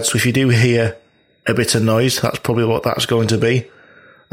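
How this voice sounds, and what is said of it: Slightly creaky, sore-throated voice. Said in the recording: “I have a little bit of a sore throat, ... I get a little bit creaky”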